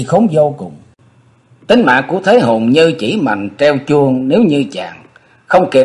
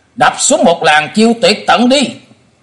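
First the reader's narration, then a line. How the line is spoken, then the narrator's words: Shout. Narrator (Vietnamese): nhị đầu thái tử thét lên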